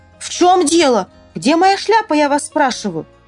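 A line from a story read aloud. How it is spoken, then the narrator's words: Shouting. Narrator (Russian): Тогда он закричал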